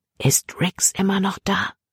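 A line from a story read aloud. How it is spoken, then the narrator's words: Whispered. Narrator (German): flüsterte Libby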